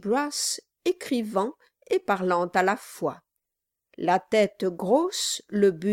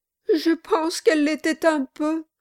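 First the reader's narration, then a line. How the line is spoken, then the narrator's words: Sobbing. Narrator (French): dit Mistress Kilp avec un sanglot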